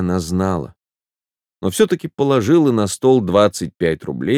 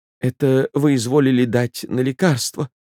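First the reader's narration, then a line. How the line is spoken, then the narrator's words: Trembling voice. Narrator (Russian): сказал Чаликов дрогнувшим голосом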